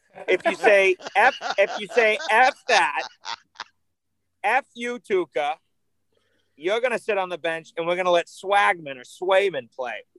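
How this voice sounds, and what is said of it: Put-on Boston accent. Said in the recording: “That was my best Boston accent”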